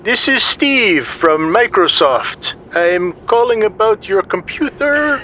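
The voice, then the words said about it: Heavy put-on Indian accent. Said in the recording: “you hear a voice with a heavy Indian accent.”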